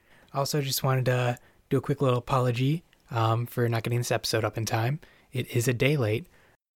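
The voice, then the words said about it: Weak, recovering sick voice. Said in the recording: “can't tell by my voice, I am getting over a cold. My voice is just starting to return”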